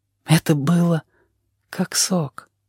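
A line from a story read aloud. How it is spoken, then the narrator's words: Quiet. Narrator (Russian): сказал он тихо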